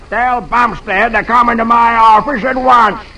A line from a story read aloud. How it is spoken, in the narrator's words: he roars